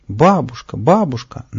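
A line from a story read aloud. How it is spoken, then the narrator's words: Joyful breathless cry. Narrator (Russian): на бегу радостно вскрикнул Павлик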